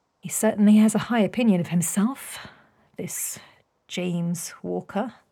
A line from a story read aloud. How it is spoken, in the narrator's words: Beatrix murmured